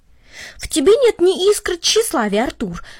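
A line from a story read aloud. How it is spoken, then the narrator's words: Exclamation. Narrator (Russian): воскликнул Гарри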